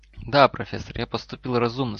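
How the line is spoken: Calm boy's reply. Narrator (Russian): спокойно ответил мальчик

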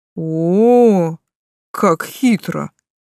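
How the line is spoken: Drawling. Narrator (Russian): протянул

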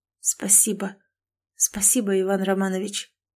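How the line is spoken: Absent-minded muttering. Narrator (Russian): рассеянно пробормотала

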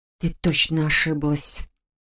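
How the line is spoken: Whisper. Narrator (Russian): шептание

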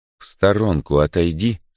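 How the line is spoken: Calm. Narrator (Russian): спокойно говорю я

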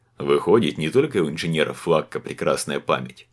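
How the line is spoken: Chuckling mustached man. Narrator (Russian): хохотнул усатый

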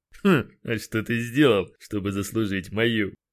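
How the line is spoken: Skeptical hum. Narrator (Russian): хмыкнул Кристиан

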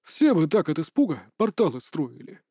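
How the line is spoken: Chuckling. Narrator (Russian): хохотнул ректор

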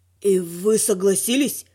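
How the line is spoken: Wheezing dragon. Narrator (Russian): просипел дракон

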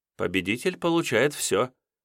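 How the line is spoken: Thoughtful. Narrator (Russian): задумчиво произнесла Елена

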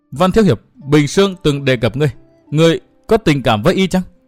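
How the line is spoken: Girl's trembling voice. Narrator (Vietnamese): thiếu nữ bịt mặt nói giọng run run

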